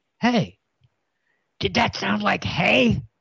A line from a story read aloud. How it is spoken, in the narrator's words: Fuff whispered to himself